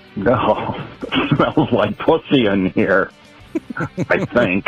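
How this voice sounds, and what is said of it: Impression of Paul Lynde. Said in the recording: “a really bad impression of Paul Lind ... Not bad. That's not a bad Paul Lind”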